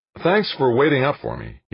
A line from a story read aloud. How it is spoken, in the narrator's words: said, grinning happily